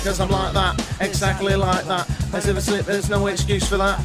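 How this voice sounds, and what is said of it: Rapping in a slight Manchester accent. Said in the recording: “with a slight Manchester accent there that I've thrown in”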